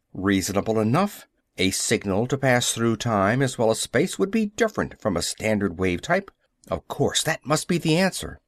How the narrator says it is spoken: Howell said curtly

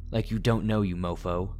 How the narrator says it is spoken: said with a half-assed laugh

